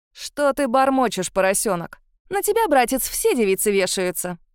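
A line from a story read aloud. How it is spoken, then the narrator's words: Snide, mocking. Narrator (Russian): ехидно улыбнулась Антуанетта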